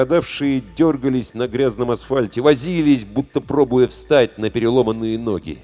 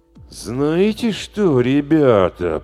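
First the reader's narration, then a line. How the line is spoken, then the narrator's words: Drawling. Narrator (Russian): протянул он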